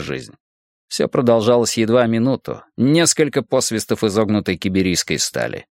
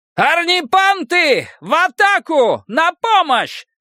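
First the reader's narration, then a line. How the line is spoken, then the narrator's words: Loud yell. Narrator (Russian): заорал Нгома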